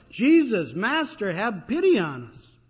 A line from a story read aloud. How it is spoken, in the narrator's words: they holler